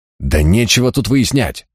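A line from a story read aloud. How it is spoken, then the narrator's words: Angry blurt. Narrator (Russian): злобно выпалил приор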